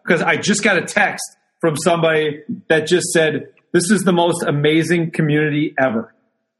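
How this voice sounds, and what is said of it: Choked-up, emotional voice. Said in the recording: “I get a little choked up”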